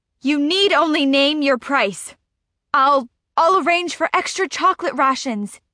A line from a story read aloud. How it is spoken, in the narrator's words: he yells, his eyes crazed with desperation